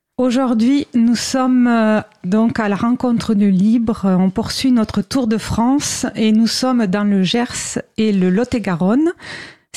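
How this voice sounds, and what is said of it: Regional southwestern French accent. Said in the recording (French): “Si vous l'avez remarqué avec mon accent, c'est une région chère à mon cœur.”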